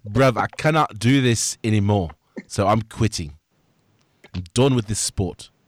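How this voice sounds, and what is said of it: Put-on accent. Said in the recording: “That's a great accent.”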